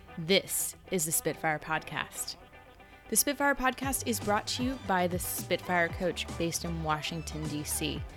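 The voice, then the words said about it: Hoarse, congested, frog-like voice. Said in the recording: “you can probably hear it in my voice, but I have been recovering from a head cold ... my frog-like voice”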